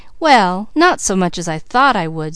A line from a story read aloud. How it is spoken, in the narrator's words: said Mickey